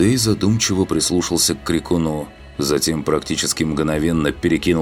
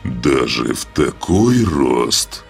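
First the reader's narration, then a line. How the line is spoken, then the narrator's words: Booming from above. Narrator (Russian): прогремело с высоты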